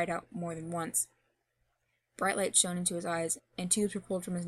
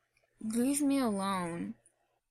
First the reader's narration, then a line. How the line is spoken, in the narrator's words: he slurred out in protest